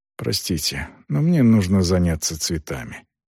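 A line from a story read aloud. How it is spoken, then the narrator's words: Muttered. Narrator (Russian): она пробормотала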